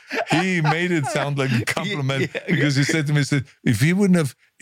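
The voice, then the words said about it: Strong foreign accent. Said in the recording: “they said would never work because of my accent”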